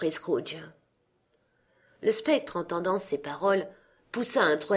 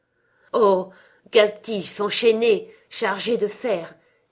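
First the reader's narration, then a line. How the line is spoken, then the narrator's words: Exclaiming man. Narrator (French): s'écria-t-il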